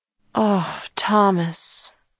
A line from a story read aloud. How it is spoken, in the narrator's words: Kira sighed, turning away from the window